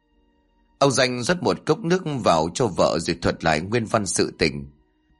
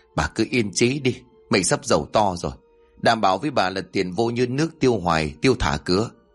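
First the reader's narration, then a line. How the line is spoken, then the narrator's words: Trembling yet confident. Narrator (Vietnamese): Ông Danh run rẩy nói bằng giọng tự tin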